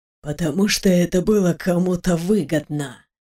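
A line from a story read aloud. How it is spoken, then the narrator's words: Through clenched teeth. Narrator (Russian): процедил сквозь зубы лорд Юр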